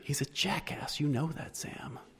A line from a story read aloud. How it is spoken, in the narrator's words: she whispered